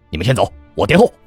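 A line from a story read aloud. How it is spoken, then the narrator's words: Urgent shout. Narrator (Chinese): 我暗道一声不妙，便朝老六和虎生大喊一声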